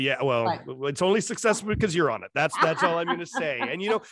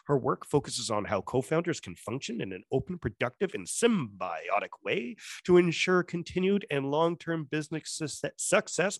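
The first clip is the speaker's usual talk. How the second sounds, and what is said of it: Enticing radio announcer voice. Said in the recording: “Your radio voice is enticing.”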